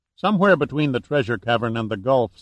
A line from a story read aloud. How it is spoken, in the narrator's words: said Duncan